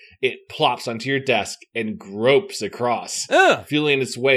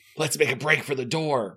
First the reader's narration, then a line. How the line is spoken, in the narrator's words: Mark whispers